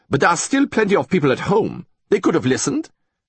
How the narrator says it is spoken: snapped von Igelfeld

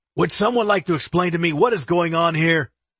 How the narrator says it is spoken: Chief Galloway shouts in anger

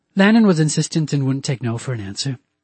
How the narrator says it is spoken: Susan said in an apologetic tone

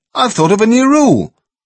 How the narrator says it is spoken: somebody stopped playing and shouted

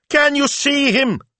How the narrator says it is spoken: someone screamed

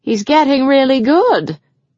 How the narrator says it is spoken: Ava called out to Paige

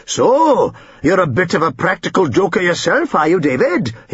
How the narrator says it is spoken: he exclaimed at last

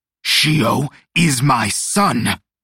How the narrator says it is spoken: Mala Suerte roared

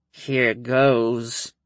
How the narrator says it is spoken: Winter groaned between clenched teeth

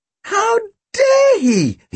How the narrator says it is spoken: He squeaked

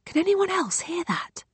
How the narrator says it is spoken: I whisper

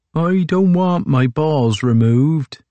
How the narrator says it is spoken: whined Magnus

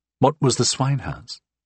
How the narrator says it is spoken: I asked gently

